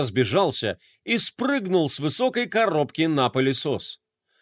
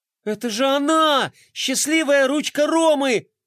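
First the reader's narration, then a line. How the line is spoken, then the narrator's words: Exclaiming. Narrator (Russian): воскликнула Глория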